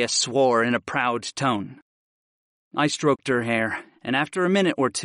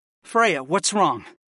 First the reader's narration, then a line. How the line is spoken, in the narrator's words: I pleaded, and my heart grew heavy in my chest